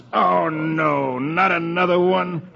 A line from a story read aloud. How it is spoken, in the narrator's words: The manager groans